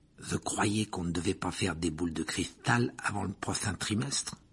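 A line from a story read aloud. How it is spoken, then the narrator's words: Murmured. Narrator (French): murmura Ron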